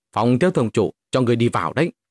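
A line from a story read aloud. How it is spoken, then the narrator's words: Angry. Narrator (Vietnamese): hộ vệ kia tức giận nói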